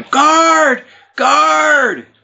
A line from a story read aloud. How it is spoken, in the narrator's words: she's yelling